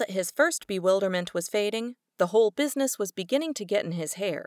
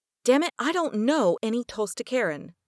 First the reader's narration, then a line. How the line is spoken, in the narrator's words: said Jim angrily